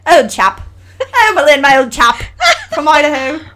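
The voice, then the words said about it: Put-on British accent. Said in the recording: “I do a pretty good British accent ... my best British accent is not as good as a genuine British accent”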